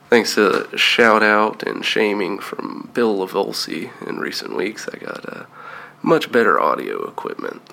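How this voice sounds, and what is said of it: Scratchy, hoarse voice. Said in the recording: “Had a bout of the flu, and loads of tree pollen hit us ... I'm sure my voice is lovely ... you can hear my scratchy voice”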